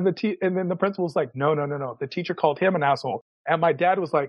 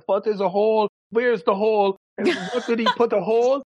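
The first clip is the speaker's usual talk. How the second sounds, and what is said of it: Imitated Persian-accented English. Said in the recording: “My dad is a Persian dad, got the accent the whole nine.”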